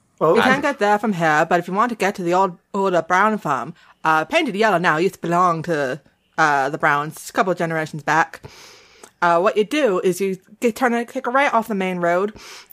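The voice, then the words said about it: Put-on rural New England accent. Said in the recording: “you can do a New Hampshire accent better than I can. ... it's more Maine. ... I do think that that's more Maine.”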